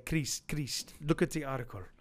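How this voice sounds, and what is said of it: Put-on Palestinian accent. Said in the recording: “is that your Palestinian accent? ... That was my Palestinian accent. ... It was spot on.”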